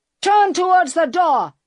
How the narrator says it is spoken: shouted

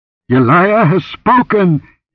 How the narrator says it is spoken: he cried in an exalted voice

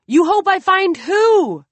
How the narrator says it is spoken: Kevin shouts after him

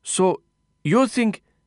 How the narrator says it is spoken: Jitendra stammered

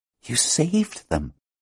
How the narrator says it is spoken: Hala explained, still in a whisper

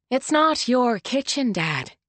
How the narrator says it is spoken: she said calmly

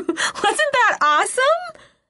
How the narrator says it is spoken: I holler

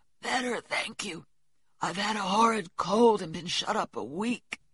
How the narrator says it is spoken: Laurie croaked out as hoarsely as a raven

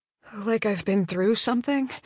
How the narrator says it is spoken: I mutter

